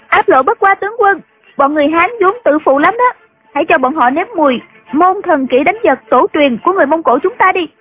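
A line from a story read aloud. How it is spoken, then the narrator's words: Loud voice. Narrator (Vietnamese): Triệu Mẫn nằm trên tuyết lớn tiếng nói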